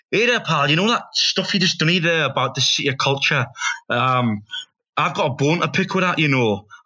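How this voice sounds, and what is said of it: Poor put-on Scottish accent. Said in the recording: “a Scottish fella ... I can't do the accent ... Do the accent. Go on, have a go. ... I'm from Glasgow ... That was terrible, innit? ... was it Indian?”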